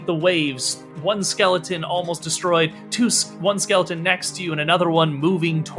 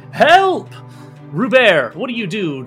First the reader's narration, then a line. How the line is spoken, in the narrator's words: Darwin Nash, frightened, shouting